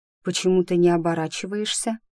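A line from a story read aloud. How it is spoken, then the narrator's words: Plain. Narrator (Russian): спросила я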